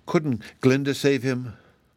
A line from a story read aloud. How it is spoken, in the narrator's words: They were all very sorry for him, and Dorothy anxiously asked Ozma